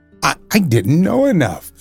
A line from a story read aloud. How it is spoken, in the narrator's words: replied the Scarecrow cheerfully